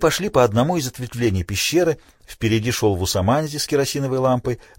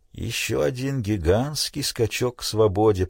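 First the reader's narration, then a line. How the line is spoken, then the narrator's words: Mutter. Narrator (Russian): пробормотал Крейг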